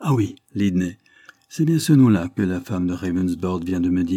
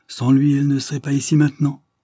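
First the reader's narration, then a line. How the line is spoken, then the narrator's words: Vehement exclamation. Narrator (French): s'écria avec véhémence Miss Bordelion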